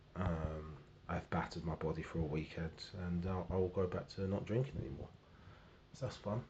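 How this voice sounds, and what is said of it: Strange, worn-out sounding voice. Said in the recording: “you can hear my my voice is very strange”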